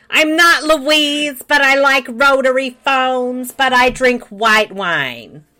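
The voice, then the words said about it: Louise Lasser impersonation. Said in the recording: “You're a Louise Lasser impersonator.”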